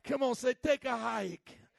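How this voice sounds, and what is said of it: Mock Chicago / New York accent. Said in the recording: “That's my best Chicago accent. I know it sounds more like a messed up New York accent,”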